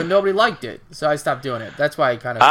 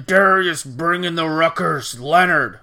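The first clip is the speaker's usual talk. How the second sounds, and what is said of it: Imitates another person's voice. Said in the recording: “my boomer impression.”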